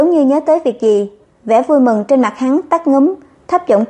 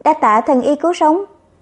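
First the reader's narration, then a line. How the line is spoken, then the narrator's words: Smiling, gentle. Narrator (Vietnamese): Thái tử mỉm cười, ôm nhu nói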